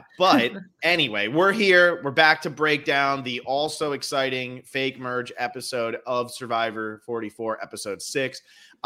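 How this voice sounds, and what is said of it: Monotone Stephen Wright impression. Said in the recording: “my best Stephen Wright impression ... It's so monotone.”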